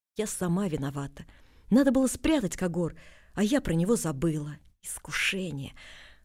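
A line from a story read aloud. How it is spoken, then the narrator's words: Deep sigh, repeating. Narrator (Russian): вздохнула глубоко и еще раз повторила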